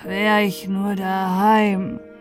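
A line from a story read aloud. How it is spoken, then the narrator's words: Sighed. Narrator (German): seufzte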